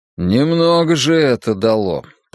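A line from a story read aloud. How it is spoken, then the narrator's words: Grumbling. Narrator (Russian): проворчал он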